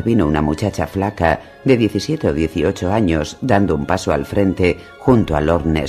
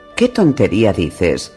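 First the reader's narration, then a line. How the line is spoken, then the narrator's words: Snapped by uncle. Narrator (Spanish): espetó a Lord Nestor su tío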